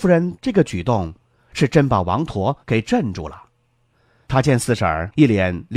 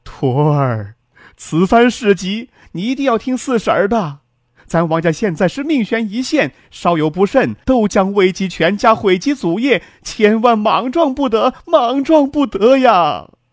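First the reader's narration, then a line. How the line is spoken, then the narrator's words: Crying. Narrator (Chinese): 三老爷这一哭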